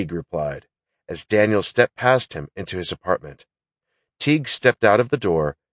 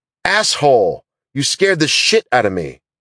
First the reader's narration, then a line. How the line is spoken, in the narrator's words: Daniel shouted